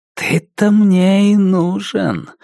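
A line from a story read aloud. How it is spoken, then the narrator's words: Velvety voice. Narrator (Russian): сказал Лестер Пратт своим новым бархатным голосом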